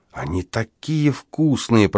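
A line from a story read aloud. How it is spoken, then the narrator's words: Mumbling. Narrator (Russian): пробормотала Эпини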